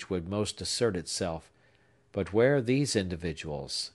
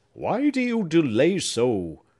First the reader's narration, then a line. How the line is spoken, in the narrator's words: cried he sharply